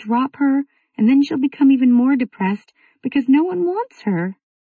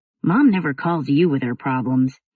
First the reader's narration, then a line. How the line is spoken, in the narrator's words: he grumbled